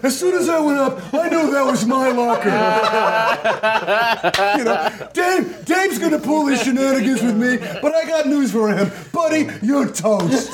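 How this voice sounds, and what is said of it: Impression of Storage Wars' Darrell. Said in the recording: “did a Daryl impression”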